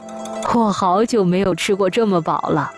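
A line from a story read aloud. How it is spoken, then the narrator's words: Old man, laughing. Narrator (Chinese): 老人对暖暖笑道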